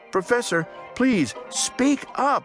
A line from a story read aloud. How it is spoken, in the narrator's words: I cried